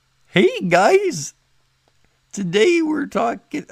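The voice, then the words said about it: Weird put-on accent. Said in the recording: “maybe put an accent on it ... That was the weirdest accent.”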